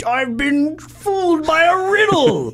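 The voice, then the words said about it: Dormammu villain voice imitation. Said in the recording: “That's a great Dormammu imitation right there.”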